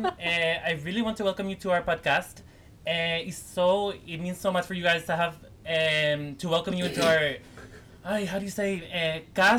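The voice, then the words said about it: Fake Spanish accent, imitating Hilaria Baldwin. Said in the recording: “It's our Hilaria Baldwin episode ... let me get out of my fake Spanish accent.”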